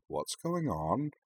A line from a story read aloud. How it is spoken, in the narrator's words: Rory murmured to Amy